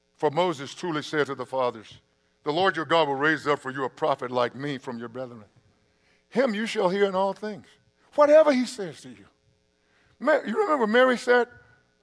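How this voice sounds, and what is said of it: Reading aloud quickly. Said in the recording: “I'm going to read this quickly.”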